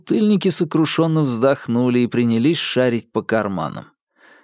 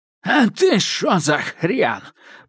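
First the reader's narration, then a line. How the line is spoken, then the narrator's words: Hoarse old man. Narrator (Russian): просипел старик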